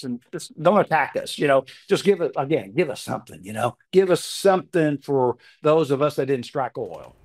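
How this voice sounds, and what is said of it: Accent and voice like George W. Bush. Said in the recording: “I can hear George W. Bush. You sound just like him to me ... The accent, the voice. ... He has the accent”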